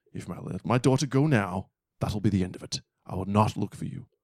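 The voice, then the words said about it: Put-on movie-villain threat voice. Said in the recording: “your accent was better because you're closer to white”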